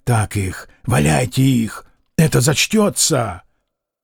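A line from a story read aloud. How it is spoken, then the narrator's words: Whisper. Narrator (Russian): Кто-то из тех скромных людей шептал Фоме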